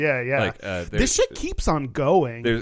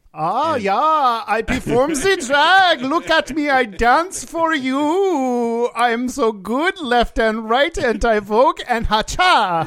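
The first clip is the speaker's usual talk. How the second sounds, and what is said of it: Faux Swedish generic European accent. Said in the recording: “channeling those creepy Swedish twins from Big Mouth ... faux Swedish, or I don't know, or generic European accent”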